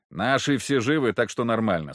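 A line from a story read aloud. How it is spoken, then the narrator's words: Plain. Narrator (Russian): сказал я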